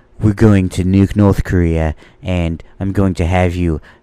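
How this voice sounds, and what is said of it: Poor imitation of another person's voice. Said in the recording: “I have a terrible Trump impression”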